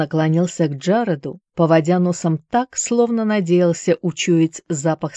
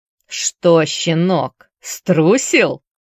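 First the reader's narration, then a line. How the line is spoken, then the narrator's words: Drawling. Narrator (Russian): Протянул Шоу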